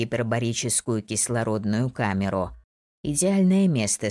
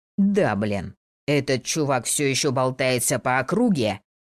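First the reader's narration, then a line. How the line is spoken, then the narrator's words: Seal-like bark. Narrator (Russian): рявкнул Самир как тюлень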